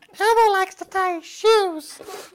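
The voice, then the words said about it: Elmo-like Muppet character voice. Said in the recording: “my Elmo impression... That sounded like a Muppet”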